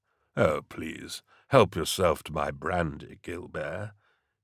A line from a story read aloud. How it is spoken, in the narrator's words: he muttered, though the sarcasm was lost on his massive aide